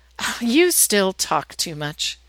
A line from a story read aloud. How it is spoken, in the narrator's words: Jennifer just laughs and says